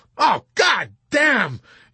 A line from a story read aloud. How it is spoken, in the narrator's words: Yossarian exclaimed bitterly